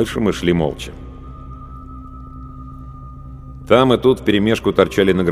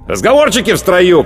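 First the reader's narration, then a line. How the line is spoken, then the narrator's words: Shout. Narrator (Russian): крикнул сержант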